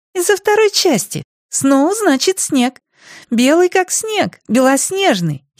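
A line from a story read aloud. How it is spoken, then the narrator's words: Giggling. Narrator (Russian): хихикнула Мот Беш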